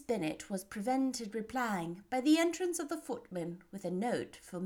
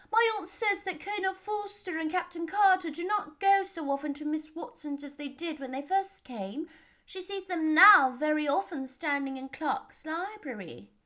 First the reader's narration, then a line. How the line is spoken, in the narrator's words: cried Lydia